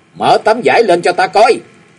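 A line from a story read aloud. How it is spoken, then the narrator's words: Near-shouting. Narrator (Vietnamese): Gia Cát Anh nói như thét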